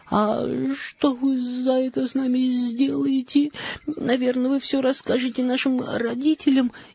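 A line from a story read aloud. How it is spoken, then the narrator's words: Frightened question. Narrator (Russian): испуганно спросила Мари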